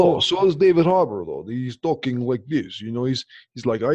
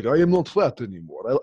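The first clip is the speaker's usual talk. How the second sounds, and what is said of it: Put-on Russian accent. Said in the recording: “the Russian accent... You just wanted to show off your accents.”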